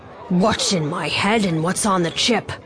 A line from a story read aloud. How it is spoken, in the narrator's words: Bach muttered